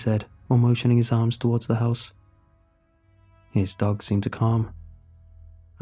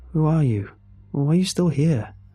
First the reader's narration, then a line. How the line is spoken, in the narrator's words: I asked